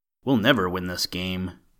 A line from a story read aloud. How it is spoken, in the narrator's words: Pete groaned